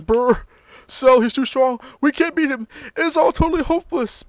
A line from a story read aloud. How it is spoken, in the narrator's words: Piccolo, Goku, and Tien are all, you know, groaning and saying